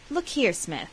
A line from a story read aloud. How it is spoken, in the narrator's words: said Mike earnestly